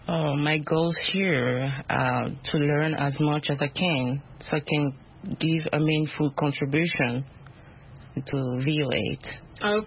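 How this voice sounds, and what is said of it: Speaks with a foreign accent. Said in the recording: “My accent. ... We love accents. We all have accents.”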